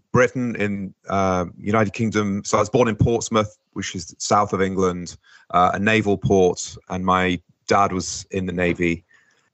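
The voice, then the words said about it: British English accent. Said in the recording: “as you can tell from the accent, not originally from this side of the Atlantic”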